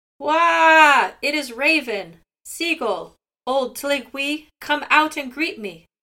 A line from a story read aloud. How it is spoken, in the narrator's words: Outside the door, Raven called out in a loud voice